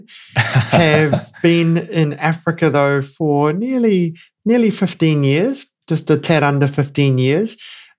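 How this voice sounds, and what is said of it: New Zealand accent. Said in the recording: “I can hear that accent coming through”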